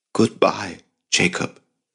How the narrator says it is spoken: she whispered in a voice at once intimate and pained

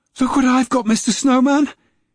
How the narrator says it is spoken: he cried, struggling

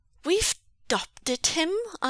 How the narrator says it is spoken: Aling had insisted fiercely

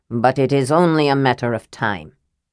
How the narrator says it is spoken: Armin said grimly

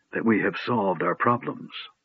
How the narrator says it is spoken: said Raistlin softly

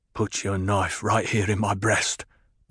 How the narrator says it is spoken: muttered

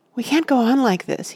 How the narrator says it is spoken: he panted

